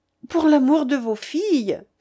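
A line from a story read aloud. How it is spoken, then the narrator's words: Crying out. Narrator (French): s'écria-t-elle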